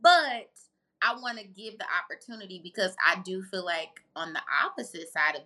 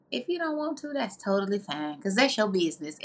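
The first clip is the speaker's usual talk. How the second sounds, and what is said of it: Tabitha Brown impression. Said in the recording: “in my Tabitha Brown voice.”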